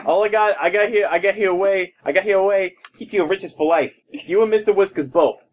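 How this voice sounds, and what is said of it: Put-on New Jersey accent. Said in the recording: “And now I'm slightly from New Jersey. ... all I can do is this New Jersey accent now.”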